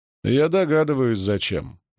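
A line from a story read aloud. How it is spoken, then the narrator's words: Grim. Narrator (Russian): мрачно сказал командир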